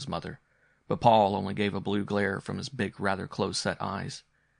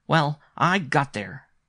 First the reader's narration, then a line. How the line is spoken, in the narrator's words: he announced fiercely